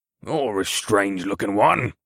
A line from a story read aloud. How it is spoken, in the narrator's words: the big brute rumbled